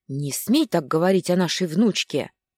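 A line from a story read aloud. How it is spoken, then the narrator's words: Old woman's fierce growl. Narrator (Russian): Не уступая тоном, прорычала бабушка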